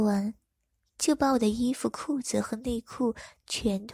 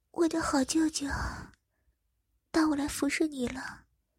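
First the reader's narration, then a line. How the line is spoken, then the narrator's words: Tender, gentle. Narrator (Chinese): 如眼神非常温柔的说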